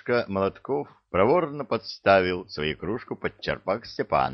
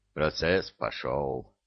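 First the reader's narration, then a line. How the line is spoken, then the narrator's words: Mutter. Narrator (Russian): пробормотал он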